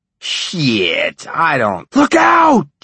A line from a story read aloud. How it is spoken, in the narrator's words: Johnny yelled